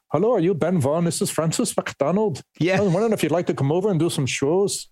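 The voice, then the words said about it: Imitated Scottish accent. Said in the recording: “with that great Scottish accent”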